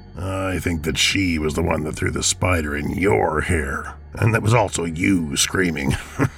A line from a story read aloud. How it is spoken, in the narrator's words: chuckled Bob